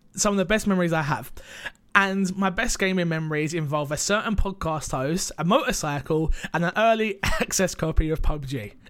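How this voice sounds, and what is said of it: Choked-up emotional voice. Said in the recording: “I'm getting a little bit choked up.”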